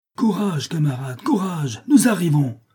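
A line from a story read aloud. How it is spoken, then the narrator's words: Shout over the uproar. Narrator (French): crie Jean de Fer d'une voix qui domine le tumulte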